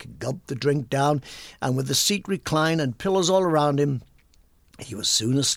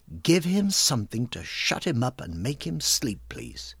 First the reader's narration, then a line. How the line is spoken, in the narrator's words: it was Eliza who coldly said